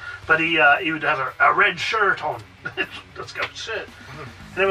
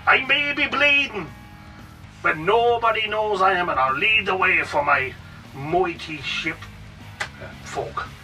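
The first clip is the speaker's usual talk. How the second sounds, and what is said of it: Put-on Welsh or Irish accent. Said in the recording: “Was that a Welsh accent? ... I think that was a Welsh accent. ... It was Irish or Welsh or something.”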